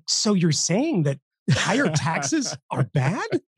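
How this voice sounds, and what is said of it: Mock incredulous imitation of another person. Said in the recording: “my Stossel impression is always the fake Eh, like the f- fake incredulity”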